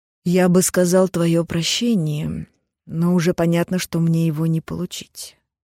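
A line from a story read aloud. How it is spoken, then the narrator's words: Sad chuckle. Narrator (Russian): печально усмехнулся донор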